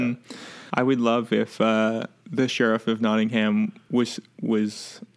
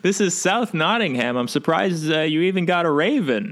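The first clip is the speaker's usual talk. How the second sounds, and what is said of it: Exaggerated Boston accent. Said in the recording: “You really hit that Boston accent hard on it.”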